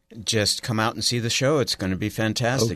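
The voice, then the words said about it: Polished radio-style voice. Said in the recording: “whose voice, I think, that's a radio voice”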